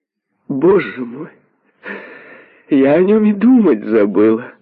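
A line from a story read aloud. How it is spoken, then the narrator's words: Carefree laughing. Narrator (Russian): Она беспечно рассмеялась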